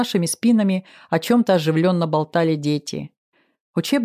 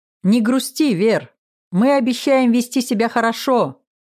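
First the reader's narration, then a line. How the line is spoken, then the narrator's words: Loud yell. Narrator (Russian): произнес Владик и заорал на весь автобус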